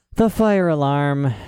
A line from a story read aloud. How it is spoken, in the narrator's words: said the doctor, sighing